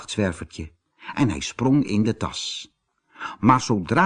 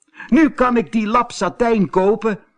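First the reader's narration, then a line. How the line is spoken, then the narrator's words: Excited exclamation. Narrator (Dutch): riep Roosje opgewonden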